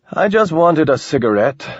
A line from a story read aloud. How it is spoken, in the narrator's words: Ramon said, keeping his tone friendly